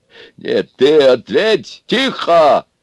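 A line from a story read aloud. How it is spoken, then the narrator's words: Barked, big-bellied man. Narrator (Russian): рявкнул брюхатый на всех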